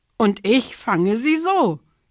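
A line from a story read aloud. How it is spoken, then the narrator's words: Kingfisher calling. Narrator (German): rief der Eisvogel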